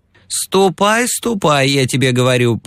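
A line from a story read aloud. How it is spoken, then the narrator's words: High creaky voice. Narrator (Russian): проскрипела она своим высоким голосом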